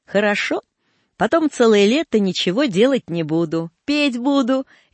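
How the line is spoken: Cheerful speech. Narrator (Russian): весело говорила Нюра

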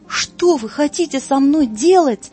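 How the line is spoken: Frantic scream. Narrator (Russian): неистово закричал Тёма

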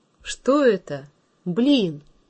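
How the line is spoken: Exclamation. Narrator (Russian): Василий Иванович воскликнул

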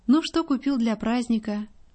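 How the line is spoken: Affectionate mother. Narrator (Russian): Матушка ласково говорит

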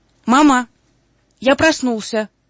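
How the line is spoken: Shouting. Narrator (Russian): крикнул

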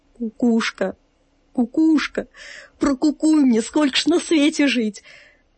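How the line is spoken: Tearful pleading through sobs. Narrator (Russian): сквозь всхлипывание стал просить вещую птицу

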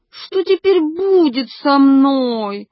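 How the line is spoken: Exclaimed with prompter's help. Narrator (Russian): воскликнула при помощи суфлера Арвидова

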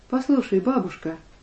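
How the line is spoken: Somewhat timid. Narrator (Russian): несколько робко продолжала Алеша

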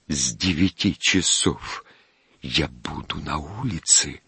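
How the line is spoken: Quiet. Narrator (Russian): проговорил он тихо

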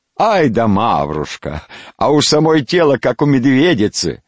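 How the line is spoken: Laughing young men. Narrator (Russian): парни смеялись

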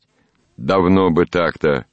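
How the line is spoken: Grumbling. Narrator (Russian): ворчал Голохватов

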